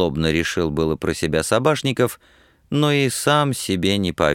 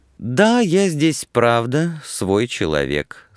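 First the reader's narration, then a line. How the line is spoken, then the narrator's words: Calm continuation. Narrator (Russian): спокойно продолжал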